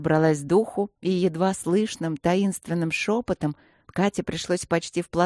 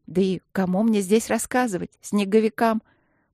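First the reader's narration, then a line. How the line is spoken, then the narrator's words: With a chuckle. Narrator (Russian): Подруга со смешком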